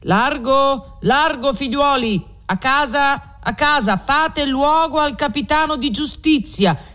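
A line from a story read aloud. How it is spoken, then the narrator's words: Men shouting together. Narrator (Italian): grida lui e gli alabardieri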